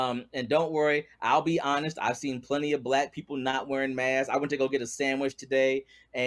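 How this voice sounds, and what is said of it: Usual voice. Nothing is said of it.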